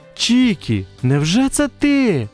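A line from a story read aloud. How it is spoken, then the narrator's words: Mother exclaiming. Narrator (Ukrainian): вигукнула мама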